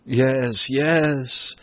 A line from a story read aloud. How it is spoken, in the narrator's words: Sophocles groaned